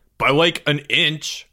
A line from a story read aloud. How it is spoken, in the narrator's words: Greg snapped